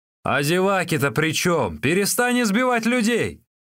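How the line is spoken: Shouting. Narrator (Russian): Джу Гуй закричал

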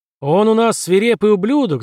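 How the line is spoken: Yelling into microphone. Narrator (Russian): заорал худой во включенный микрофон

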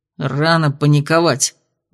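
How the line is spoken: Gruff mutter. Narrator (Russian): буркнул Хравс

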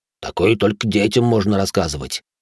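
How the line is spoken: Annoyed grumble. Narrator (Russian): с досады, буркнул енот

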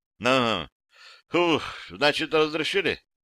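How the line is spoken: Relieved exhale. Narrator (Russian): выдохнул с определенной долей облегчения

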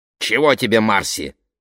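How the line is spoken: Judge's bark. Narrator (Russian): рявкнул судья

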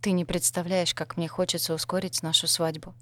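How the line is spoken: Low murmur. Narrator (Russian): низким голосом пробормотал Дэн

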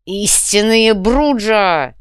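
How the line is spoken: Growled clan motto. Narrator (Russian): прорычал Джакомо древний девиз клана

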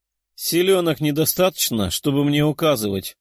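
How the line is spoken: Chuckling empress. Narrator (Russian): хохотнула императрица

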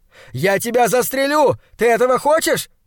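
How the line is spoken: Shouting. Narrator (Russian): кричал Хок

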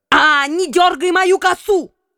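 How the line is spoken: Princess yelling. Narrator (Russian): вопила вошедшая враж княжна

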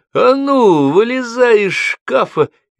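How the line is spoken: Cheerful shout. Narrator (Russian): весело закричал

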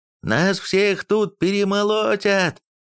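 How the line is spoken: Yelled. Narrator (Russian): заорал он

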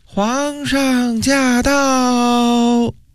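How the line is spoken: Shrill announcement. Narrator (Chinese): 一名内官尖声叫道

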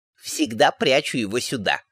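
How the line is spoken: Wry snort. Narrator (Russian): хмыкнула она

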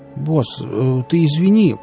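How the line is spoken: Mumbled. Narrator (Russian): промямлил Нарк

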